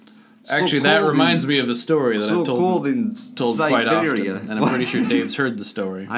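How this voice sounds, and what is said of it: Usual voice. Nothing is said of it.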